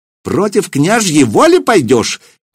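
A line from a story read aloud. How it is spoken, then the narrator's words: Shrill shout over crowd. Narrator (Russian): визгливо, перекрывая гул голосов, выкрикнул Семирад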